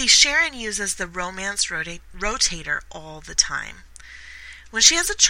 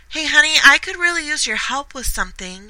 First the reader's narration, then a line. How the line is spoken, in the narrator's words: Sharon called out